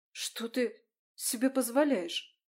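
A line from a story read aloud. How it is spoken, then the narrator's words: Shocked gasp. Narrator (Russian): Пораженно выдохнула Марион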